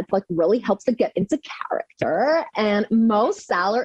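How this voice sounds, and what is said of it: Valley Girl impression. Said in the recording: “do an incredible Valley Girl impersonation.”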